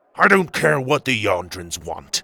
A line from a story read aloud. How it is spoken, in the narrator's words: Tuga growled